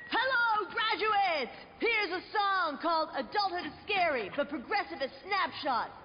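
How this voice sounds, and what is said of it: Rock band frontman impression. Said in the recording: “my impression of a geographically challenged rock band delivering a commencement speech”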